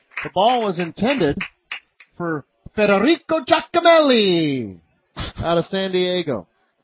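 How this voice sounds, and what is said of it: Put-on Italian accent on a name. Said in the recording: “Nice authentic uh, Italian ... accent there. ... you can't say that name without an Italian accent.”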